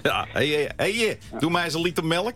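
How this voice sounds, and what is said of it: Put-on Leiden accent. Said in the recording (Dutch): “dat Leidse accent ... ik heb hem ook een tijdje overgenomen”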